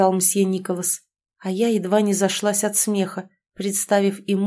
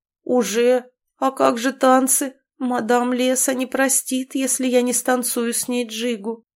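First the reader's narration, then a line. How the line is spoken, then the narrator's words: Moaning, plaintive. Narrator (Russian): тут же простонал Имон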